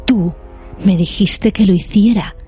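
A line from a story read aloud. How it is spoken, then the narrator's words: Hissed. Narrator (Spanish): siseó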